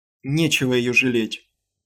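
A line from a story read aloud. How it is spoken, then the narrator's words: Sharp, irritated. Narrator (Russian): резко и раздраженно проговорила Крисси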